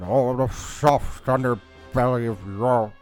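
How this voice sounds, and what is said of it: Weak Winston Churchill impression. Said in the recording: “not a very good Winston Churchill impression ... you got to get the jowls in there”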